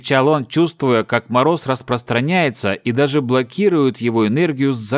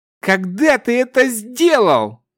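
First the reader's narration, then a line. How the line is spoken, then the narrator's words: Pained, anguished shout. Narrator (Russian): Леденея и испытывая жуткую боль, вновь закричал Тирвин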